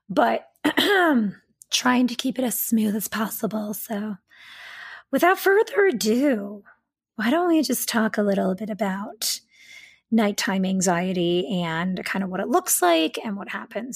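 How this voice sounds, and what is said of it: Slightly raspy voice. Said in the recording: “my voice is a little raspy today ... My allergies, again, have been sort of like flaring up”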